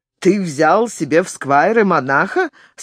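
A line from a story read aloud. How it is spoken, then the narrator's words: Joking quip. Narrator (Russian): сострил Стефан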